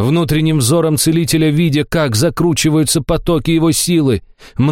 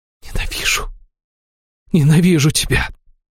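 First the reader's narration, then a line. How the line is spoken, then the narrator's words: Whisper. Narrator (Russian): прошептала Аштира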